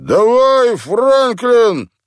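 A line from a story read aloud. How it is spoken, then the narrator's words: Encouraging. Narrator (Russian): подбодрил Вирджил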